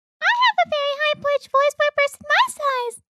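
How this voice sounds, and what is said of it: Shrill, high cartoon-like voice. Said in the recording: “I told you the shrill. ... You sound like a cartoon character. ... don't kill their eardrums.”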